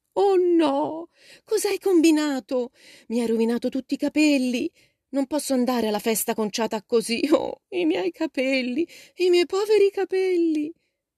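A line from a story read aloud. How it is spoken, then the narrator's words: Desperate moan. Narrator (Italian): gemette Meg, disperata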